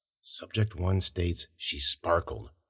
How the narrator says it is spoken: he muttered to himself

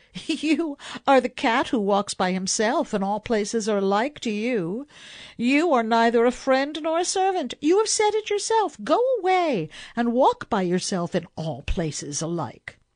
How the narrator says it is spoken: the woman laughed and said

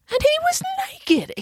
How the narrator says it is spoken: exclaimed Michael

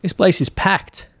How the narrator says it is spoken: Tom had to shout to Patrick in order to be heard over the noise and the music and the crowd

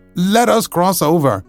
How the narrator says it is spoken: cried the scarecrow

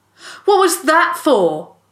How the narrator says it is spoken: Joel shouted

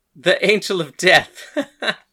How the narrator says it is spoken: Hades laughed

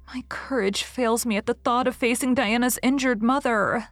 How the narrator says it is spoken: sighed Anne

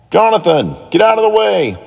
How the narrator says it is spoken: yelled Daniel

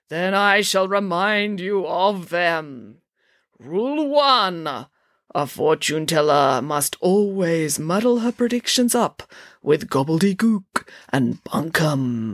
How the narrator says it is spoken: intoned Zandra

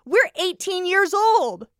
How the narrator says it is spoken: she cried, her brow creasing in fury

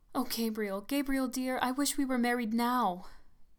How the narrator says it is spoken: cried in sudden distress

